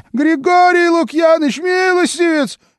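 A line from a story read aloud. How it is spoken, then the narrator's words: Shrieking in pain. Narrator (Russian): визжал от боли Илидор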